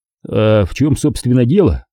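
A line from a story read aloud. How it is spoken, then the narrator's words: Forced out. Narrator (Russian): выдавил я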